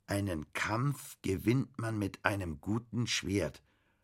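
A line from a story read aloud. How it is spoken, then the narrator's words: Read slowly. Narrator (German): las Bastian langsam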